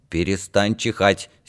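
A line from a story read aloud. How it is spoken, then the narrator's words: Angry. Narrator (Russian): сердито сказала Данка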